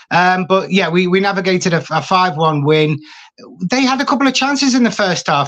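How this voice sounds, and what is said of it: Scouse Liverpool accent. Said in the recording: “you probably detect from my accent I'm not uh, local to Yorkshire. I'm a Scouser”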